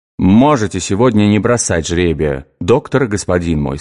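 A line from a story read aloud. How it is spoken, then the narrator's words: Plain. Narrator (Russian): сказал Иоанн Гисхальский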